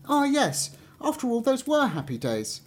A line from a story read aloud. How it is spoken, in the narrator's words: exclaimed the fir tree